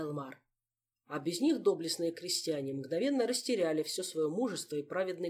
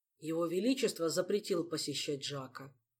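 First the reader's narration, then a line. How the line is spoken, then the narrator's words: Sighing. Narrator (Russian): вздохнул принц-бастард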